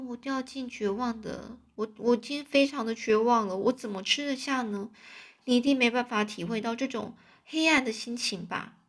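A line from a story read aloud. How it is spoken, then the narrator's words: Heavy sigh. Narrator (Chinese): 玛丽娜就大大的叹了一口气，唉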